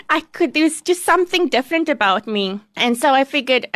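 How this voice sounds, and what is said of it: Squeaky accented voice. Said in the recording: “I'm the only one that has a colored squeaky accent.”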